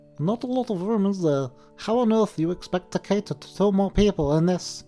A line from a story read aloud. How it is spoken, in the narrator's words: he began in a thin and reedy voice